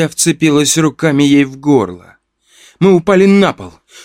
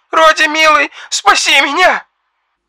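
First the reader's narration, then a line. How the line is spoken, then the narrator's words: Shouting over the phone. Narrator (Russian): кричал голос в трубке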